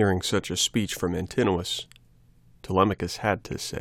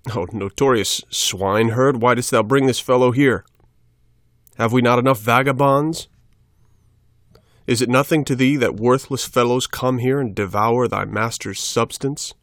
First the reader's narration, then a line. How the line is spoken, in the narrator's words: Antinous, the most insolent of the wooers, cried out